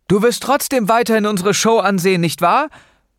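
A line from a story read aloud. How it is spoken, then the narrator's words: Calling out. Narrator (German): rief Noah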